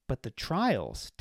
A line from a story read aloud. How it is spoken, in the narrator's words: Tax said